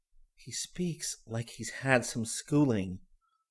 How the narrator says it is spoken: whispered Marge

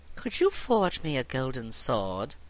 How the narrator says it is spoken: asked, smiling sweetly

